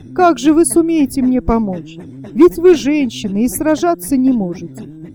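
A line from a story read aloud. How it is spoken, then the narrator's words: Loud laughing speech. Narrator (Russian): Засмеялся громко Мерген и сказал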